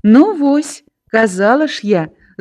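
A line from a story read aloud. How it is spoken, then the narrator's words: Pleased laughter. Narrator (Belarusian): здаволена засмяялася Настя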